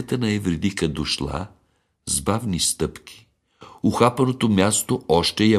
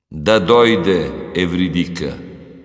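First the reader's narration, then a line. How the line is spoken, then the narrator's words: Commanding. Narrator (Bulgarian): Хадес заповядал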